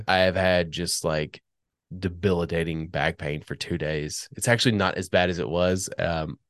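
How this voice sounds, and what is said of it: Congested, stuffy-nosed voice. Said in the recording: “As you can tell in my voice, I'm now congested.”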